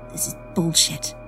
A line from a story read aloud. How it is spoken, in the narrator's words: I mutter under my breath